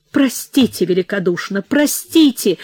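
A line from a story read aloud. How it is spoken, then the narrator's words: Sobbing exclamation. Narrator (Russian): Парчевский и рыдающим голосом воскликнул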